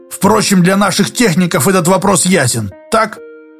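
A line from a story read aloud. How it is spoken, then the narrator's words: Smiling speech. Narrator (Russian): Спицын проговорил, улыбаясь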